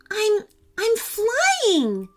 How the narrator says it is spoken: she cried

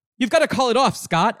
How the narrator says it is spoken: Alex shouts

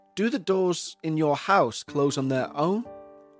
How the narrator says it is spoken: asked

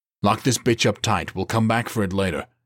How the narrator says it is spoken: he barked

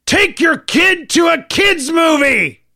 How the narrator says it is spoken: My wife had enough, and she shouted across the theater

